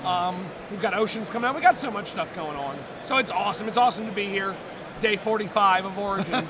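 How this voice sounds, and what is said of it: Voice sounds worn and bad. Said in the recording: “Sorry my voice is so bad.”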